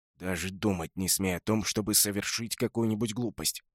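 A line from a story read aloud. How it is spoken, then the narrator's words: Hissing. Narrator (Russian): шипел Броуд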